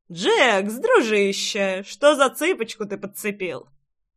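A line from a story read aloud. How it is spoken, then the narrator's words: Young man smirking. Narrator (Russian): Хмыкнул один из трех парней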